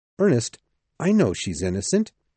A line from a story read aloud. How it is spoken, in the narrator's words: cried